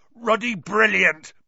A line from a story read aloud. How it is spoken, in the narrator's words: boomed Hagrid over the heads of the milling Gryffindors